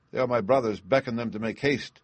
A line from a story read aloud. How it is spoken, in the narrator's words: cried she